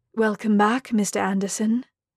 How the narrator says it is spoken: the building said with a sexy British purr

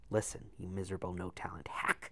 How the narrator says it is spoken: she hissed

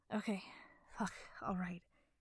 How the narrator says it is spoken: he panted

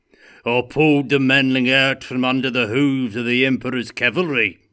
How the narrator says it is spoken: shouted Gotrek

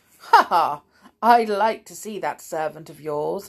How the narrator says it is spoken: laughed the wolf

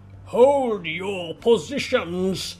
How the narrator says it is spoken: Kao bellowed

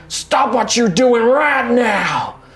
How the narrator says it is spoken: just starts bellowing at the crowd

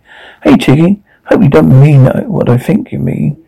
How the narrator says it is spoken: Kimmy said, again hitting me playfully

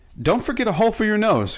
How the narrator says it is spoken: cried Betsy

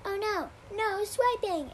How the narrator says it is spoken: called out loudly

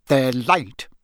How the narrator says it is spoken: he snarled at Harry

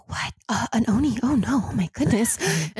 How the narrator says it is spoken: Everyone's whispering now

